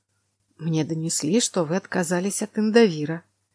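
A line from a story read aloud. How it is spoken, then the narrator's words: Soft, gentle man's voice. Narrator (Russian): мягко проговорил мужчина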